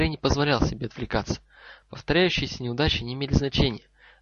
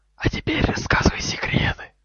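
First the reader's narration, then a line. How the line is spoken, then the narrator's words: Hissed. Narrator (Russian): прошипел темный лорд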